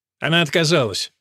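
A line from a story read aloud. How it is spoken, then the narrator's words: Curt, sharp. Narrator (Russian): резко бросил он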